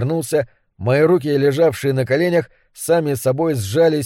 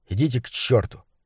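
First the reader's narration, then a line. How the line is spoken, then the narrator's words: Grumbled. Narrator (Russian): буркнул я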